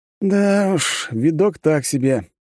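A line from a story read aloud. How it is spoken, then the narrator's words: Sighing. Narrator (Russian): вздохнул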